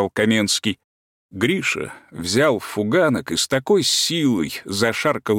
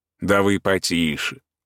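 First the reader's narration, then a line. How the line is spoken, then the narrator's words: Gentle laughing. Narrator (Russian): ласково засмеялся Каменский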